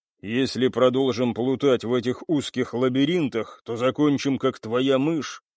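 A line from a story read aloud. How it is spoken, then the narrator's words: Grumbling, commanding. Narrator (Russian): проворчал сзади Гвен и скомандовал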